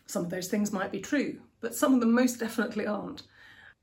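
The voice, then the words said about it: Posh English accent. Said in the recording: “the English accents ... it sounded incredibly stuck up ... my accent creates assumptions in people”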